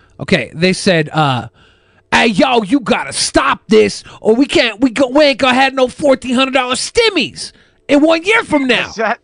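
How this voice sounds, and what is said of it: Put-on South Central street accent. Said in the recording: “do the accent with it ... Is that how Chinese people sound like from South Central?”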